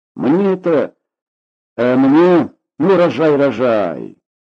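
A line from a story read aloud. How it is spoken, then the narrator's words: Encouraging amid laughter. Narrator (Russian): подбодрил цыган под хохоток приятелей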